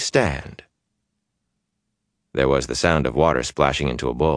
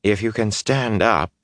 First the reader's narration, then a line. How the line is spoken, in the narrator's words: Chiad said cheerfully